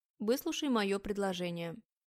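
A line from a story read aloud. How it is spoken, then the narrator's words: Demanding tone. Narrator (Russian): требовательным тоном произносит Аня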